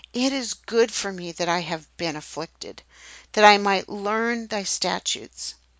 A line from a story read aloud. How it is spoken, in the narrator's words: as David exclaim